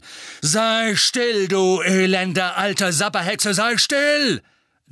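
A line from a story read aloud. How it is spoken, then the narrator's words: Thundering. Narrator (German): donnerte er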